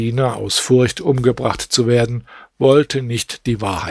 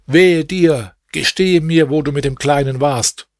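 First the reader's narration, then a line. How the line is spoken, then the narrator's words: Angry call. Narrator (German): Dieser rief dem Diener aufgebracht zu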